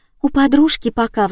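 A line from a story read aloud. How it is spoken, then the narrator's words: Sighing. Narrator (Russian): вздохнула та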